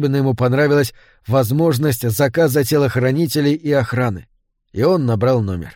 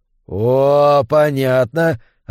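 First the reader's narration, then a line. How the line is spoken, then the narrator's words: Cautious drawl. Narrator (Russian): осторожно протянул мужчина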